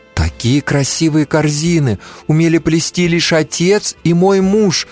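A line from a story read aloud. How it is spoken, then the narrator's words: Exclaiming. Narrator (Russian): воскликнула Анна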